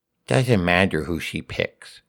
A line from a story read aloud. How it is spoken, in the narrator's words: Horace whispered to Teddy